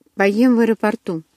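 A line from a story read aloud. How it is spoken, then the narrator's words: Calm reply. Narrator (Russian): спокойно ответила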